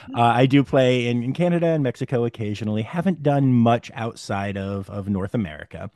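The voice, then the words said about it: American accent. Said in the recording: “if you can't tell from the accent, when I say the country, I mean the United States”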